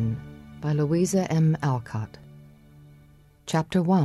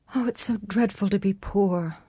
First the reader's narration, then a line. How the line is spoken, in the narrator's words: sighed Meg